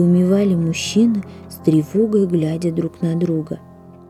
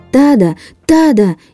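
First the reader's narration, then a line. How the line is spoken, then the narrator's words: Shouting with full force. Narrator (Russian): изо всех сил закричал Чан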